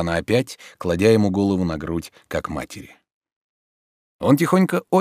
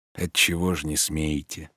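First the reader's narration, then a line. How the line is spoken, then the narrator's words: Whispered question. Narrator (Russian): шепотом же спросил он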